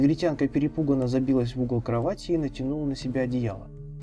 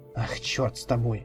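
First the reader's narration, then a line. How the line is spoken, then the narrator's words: Sighing. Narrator (Russian): вздохнул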